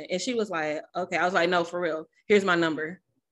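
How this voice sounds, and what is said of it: Southern Arkansas country accent. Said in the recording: “country, still got my Arkansas accent.”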